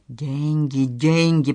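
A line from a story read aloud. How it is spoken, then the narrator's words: Moaning. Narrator (Russian): простонал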